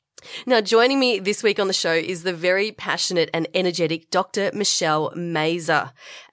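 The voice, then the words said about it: Congested voice from a cold. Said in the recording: “I have been a bit under the weather recently. You can probably hear it in my voice. I'm at the tail end of a head cold... I probably sound worse than I actually am”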